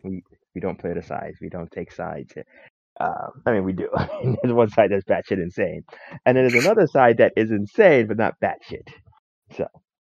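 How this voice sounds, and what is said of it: Hoarse, strained voice. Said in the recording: “losing my voice. ... That sounds terrible”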